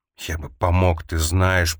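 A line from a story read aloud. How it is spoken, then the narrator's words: Hoarse whisper. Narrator (Russian): прошептал хрипло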